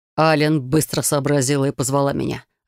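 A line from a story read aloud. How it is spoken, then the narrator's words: Growl. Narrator (Russian): рыкнул он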